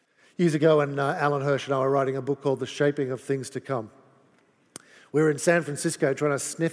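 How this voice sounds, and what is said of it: Australian accent. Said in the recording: “in his wonderful Australian accent so that you can all hear how different it is from my even more wonderful English accent”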